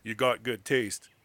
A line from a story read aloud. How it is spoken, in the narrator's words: he said gruffly